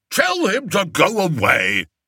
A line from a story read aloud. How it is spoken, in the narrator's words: barked Flapoon